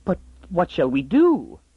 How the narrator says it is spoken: gasped the woman

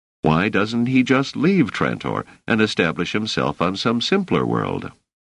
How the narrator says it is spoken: Doris laughed

